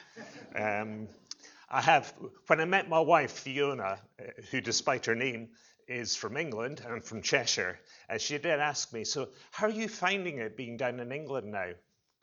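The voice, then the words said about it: Scottish accent. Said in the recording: “the Scottish accent ... hopefully my accent is clear enough”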